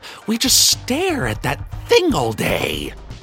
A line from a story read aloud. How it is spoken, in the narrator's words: they sneered, lovingly